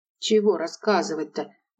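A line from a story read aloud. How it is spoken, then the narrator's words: Reluctant mutter. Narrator (Russian): Неохотно пробормотала Яна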